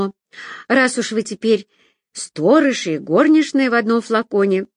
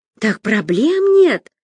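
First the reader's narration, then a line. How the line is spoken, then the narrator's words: Joyful proclamation. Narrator (Russian): радостно провозгласила Люся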